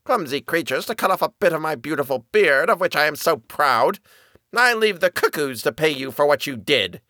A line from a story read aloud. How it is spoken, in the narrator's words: grumbled out